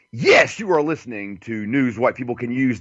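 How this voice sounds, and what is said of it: Announcer-style radio voice. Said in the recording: “let me get my radio voice ready here”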